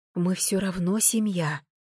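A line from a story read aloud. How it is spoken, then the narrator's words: Tearful whisper. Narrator (Russian): прошептала я, борясь собственными слезами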